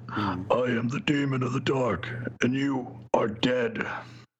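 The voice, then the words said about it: Monster character voice. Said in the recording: “I'm trying to figure how to do this voice”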